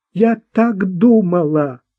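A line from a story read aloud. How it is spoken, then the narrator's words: Sobbing. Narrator (Russian): всхлипнула Марта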